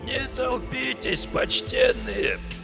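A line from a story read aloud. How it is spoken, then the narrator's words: Hoarse cracked plea. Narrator (Russian): Сиплым, надтреснутым голосом попросил он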